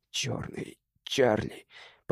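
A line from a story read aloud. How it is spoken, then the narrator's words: Whisper. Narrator (Russian): прошептал он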